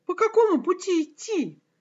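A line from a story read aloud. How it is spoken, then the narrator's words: Exclaimed. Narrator (Russian): воскликнул правнук Адама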